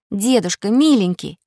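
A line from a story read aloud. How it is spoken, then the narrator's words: Pleading. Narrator (Russian): взмолила Снегурочка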